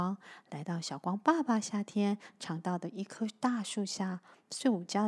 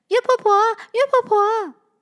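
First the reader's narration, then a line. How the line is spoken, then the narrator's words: Calling out. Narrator (Chinese): 小光叫着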